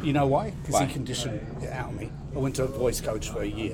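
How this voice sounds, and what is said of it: Australian accent. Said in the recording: “you sounded really Australian ... It's Australian.”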